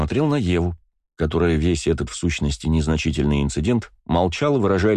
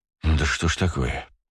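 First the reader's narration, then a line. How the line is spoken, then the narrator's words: Sighed. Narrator (Russian): вздохнул я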